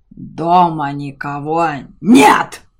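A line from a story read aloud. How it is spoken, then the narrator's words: Dragon's bark. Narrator (Russian): рявкнул дракон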